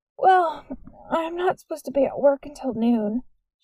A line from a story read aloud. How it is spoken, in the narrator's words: said through a yawn